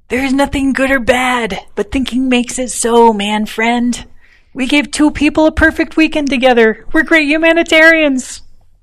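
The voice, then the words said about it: Poor imitation of a character voice. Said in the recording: “my poor impression of Topher Brink”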